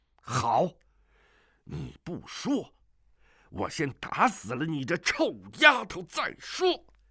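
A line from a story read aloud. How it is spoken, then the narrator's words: Furious shout. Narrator (Chinese): 云岛主 急怒之下喝道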